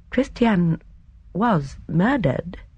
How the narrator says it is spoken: Miss Marple said slowly

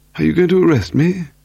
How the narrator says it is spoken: He asked nervously

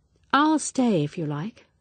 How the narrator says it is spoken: said Evelyn kindly

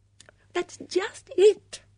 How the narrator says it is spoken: Dora Bunner cried

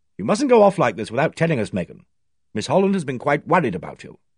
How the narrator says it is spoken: Symington said sharply

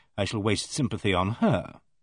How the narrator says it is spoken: said dryly

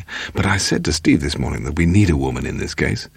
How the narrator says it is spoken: Paul said excitedly

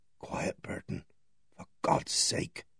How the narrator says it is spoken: Superintendent Nash's voice just breathed in my ear

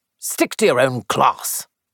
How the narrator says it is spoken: he snapped

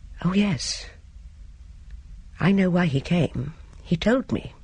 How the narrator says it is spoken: Louis Sericold said quietly

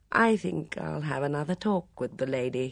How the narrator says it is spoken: he said

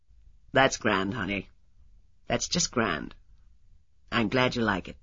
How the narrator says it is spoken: He said in his deep voice

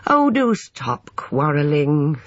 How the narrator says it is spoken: said Emma wearily

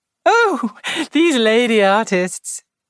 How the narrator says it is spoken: said Joyce, laughing

